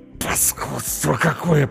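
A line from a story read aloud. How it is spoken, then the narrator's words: Hissed through clenched teeth. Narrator (Russian): прошипел сквозь зубы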